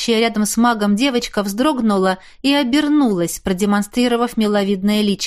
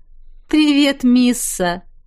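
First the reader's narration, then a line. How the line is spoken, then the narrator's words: Amused snort. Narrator (Russian): хмыкнул я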